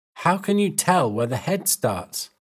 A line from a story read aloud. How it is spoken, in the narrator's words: Stubb laughed